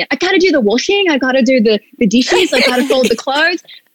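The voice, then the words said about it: Good put-on Australian accent. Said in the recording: “That was a really good Australian accent.”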